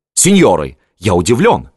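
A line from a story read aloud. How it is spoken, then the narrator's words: Exclaimed. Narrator (Russian): воскликнул Арайя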